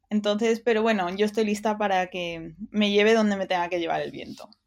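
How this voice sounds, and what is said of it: British English accent in Spanish. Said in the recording (Spanish): “nací en el Reino Unido ... como se escucha en el acento”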